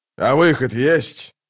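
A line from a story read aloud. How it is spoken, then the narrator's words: Menacing growl. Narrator (Russian): Дуджик прорычал эти слова так, что все вздрогнули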